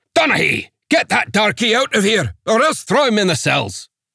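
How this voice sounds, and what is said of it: Thick Scottish accent. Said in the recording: “The accent was thick Scots.”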